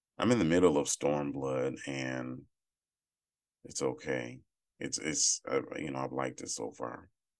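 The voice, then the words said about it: Rough, morning-worn voice. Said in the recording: “in the morning, my voice is terrible”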